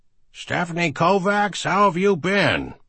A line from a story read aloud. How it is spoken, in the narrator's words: Morris called out